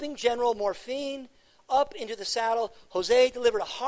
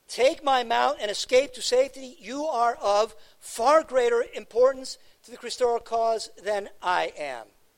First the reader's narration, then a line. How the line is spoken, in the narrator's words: he shouted